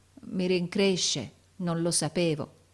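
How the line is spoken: Stammered. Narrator (Italian): balbettò

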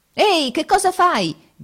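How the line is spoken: Shout. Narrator (Italian): gridate

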